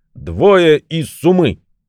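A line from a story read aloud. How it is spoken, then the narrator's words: Shouting. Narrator (Russian): Крикнул он своей Суме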